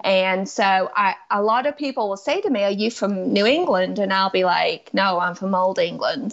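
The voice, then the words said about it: Mixed English and American accent. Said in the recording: “my accent is kind of just mixed ... You can't even call it a mid-Atlantic accent ... It's not mid-Atlantic. So it's old England, New England, and then some southern pronunciations.”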